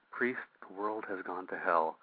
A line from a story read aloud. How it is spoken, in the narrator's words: Vash calmly replies